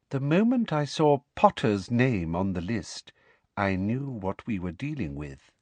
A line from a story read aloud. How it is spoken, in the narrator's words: she said softly